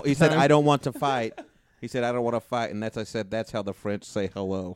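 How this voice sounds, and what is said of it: Put-on French accent. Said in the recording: “Drop the accent. ... he dropped the accent”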